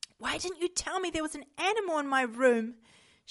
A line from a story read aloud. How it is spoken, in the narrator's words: gasped